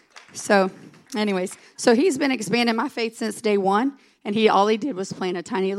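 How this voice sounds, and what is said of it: Hoarse, nearly lost voice. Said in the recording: “apologize for my voice... If I sound like Hank Voight off of Chicago PD, I apologize... mine's gone... I just sound awful. But I'm going to do it squeaking if I have to”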